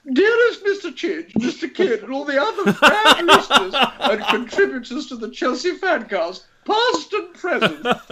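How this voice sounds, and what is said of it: Imitates another person's voice. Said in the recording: “in my Alex impression ... You sound like Mrs. Slocum.”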